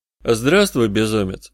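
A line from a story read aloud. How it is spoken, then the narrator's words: Forced calm, even tone. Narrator (Russian): сказал я, стараясь говорить спокойно и ровно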